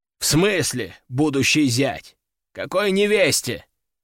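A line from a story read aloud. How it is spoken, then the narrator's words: Man growling. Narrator (Russian): рыкнул мужчина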